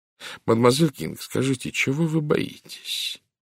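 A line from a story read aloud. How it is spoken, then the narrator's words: Gentle question. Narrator (Russian): ласково спросил Пуаро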